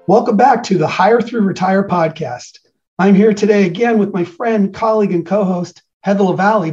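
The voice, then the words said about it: Hoarse, partly lost voice. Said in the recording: “I don't know if you can tell, I've lost my voice because I have been hooting and hollering all weekend”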